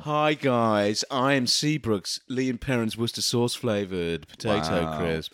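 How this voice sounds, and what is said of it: Smooth, mellifluous character voice. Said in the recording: “you're doing the voice ... I'm mellifluous”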